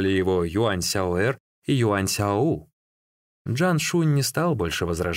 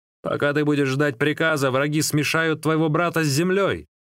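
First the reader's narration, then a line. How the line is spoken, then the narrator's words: Shouting. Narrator (Russian): закричал Юань Сяо Ци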